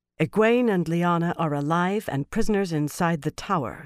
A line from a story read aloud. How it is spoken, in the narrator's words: Swan announced, more calmly than she felt